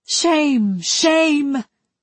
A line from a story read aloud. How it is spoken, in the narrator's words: She cried